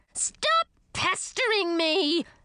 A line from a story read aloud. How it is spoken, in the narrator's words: she screamed